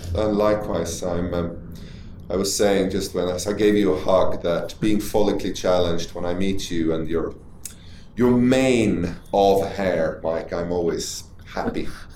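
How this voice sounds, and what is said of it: Thick Swedish accent. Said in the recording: “your thick Swedish accent ... my Swedishness shines through certain colloquialisms and pronunciation”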